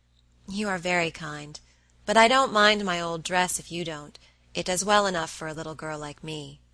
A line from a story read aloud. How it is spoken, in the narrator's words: said Meg